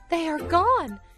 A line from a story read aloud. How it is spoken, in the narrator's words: cried Maxie